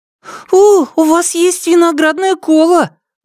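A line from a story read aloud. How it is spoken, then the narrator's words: Exclaimed. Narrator (Russian): воскликнул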